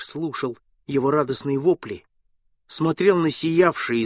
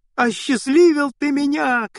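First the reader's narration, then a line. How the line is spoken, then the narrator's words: Shouting. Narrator (Russian): кричал Гаврила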